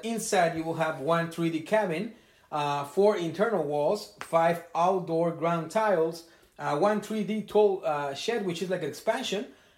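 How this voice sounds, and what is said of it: Strong non-native English accent. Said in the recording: “my accent is very bad ... because of my accent”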